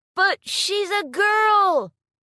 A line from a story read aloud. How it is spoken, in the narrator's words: One of the participants in the crowd shouted